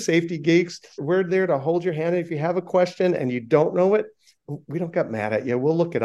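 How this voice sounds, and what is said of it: Usual voice. Nothing is said of it.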